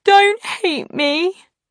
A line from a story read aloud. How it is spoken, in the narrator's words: she wailed